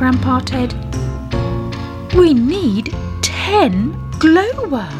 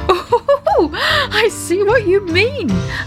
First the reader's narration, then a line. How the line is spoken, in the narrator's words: laughed Daddy Ted